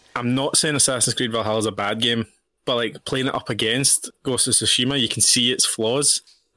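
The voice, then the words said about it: Speaks with a regional accent. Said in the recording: “Such a hard fucking name to say with my accent.”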